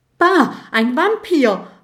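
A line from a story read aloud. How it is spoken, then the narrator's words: Frightened scream. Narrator (German): schreit Gerd und flitzt vor Schreck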